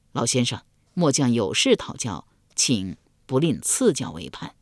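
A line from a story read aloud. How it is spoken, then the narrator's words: Low voice. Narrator (Chinese): 高黑低声说道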